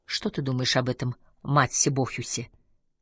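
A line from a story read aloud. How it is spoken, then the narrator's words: Quiet question. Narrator (Russian): тихо спросила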